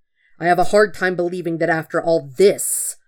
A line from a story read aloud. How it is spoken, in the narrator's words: Zuko hisses